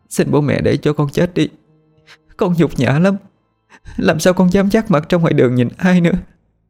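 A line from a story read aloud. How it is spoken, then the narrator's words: Tearful pleading. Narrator (Vietnamese): Cô khóc rồi van xin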